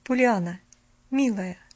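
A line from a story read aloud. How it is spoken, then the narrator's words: Gentle, affectionate. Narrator (Russian): ласково начала она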